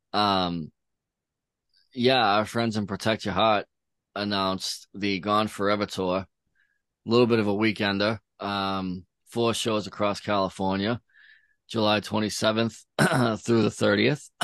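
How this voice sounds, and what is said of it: Hoarse, croaky throat. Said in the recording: “I have a frog in my throat.”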